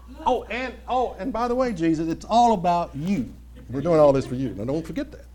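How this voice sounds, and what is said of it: Sarcastic mocking tone. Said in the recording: “being sarcastic”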